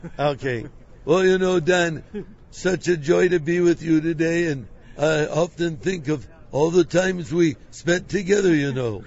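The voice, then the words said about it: Impression of Pastor Chuck. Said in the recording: “reminds them of Pastor Chuck ... great impersonation”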